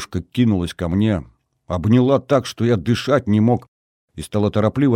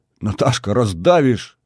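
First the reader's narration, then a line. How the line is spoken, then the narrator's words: Strained, squeezed out. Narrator (Russian): выдавил я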